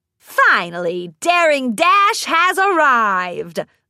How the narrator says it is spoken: a deep voice bellowed

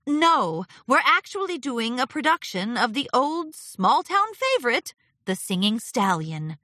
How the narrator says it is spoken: Twilight replied, her voice perky

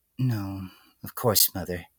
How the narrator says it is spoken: the filly murmured in response, almost entirely out of habit

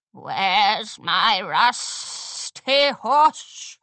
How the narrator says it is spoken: She rasped menacingly

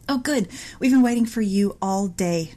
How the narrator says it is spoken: exclaimed

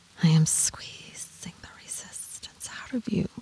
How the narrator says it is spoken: she whispers

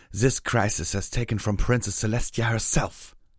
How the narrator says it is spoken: snapped

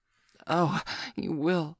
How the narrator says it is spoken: she gasped breathlessly

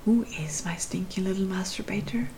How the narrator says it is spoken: he whispered in my ear

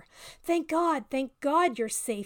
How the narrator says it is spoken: he gasped

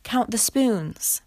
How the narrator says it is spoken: cried the people in the dinghy

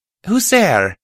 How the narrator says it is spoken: I called out

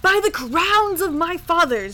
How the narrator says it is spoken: roared the king

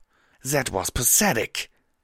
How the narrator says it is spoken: she snarled

